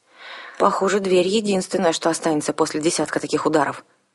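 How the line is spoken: Grim remark. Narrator (Russian): мрачно заметил Арсана

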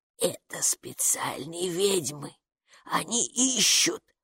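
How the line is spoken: Whisper. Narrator (Russian): прошептала привратница

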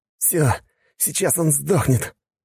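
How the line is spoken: Gasped, choking on blood. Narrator (Russian): выдохнул слова вместе с кровью изо рта лучник

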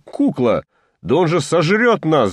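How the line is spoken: Shouting. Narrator (Russian): закричал Коля

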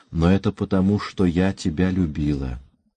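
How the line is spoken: Barely audible. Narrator (Russian): Она продолжала чуть слышно

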